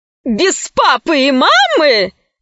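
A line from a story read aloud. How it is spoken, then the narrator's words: Woman bursting into laughter. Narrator (Russian): боевая подруга расхохоталась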